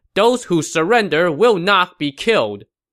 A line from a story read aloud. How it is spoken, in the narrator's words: the Shu soldiers were shouting